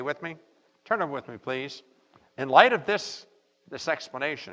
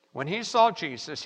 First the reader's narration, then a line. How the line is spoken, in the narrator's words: he cried out, fell down before him, and said in a loud voice